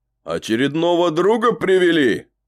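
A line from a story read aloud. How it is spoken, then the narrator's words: Shouting. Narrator (Russian): крикнул он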